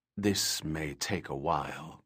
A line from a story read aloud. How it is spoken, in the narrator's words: Krohn said, a gentle whisper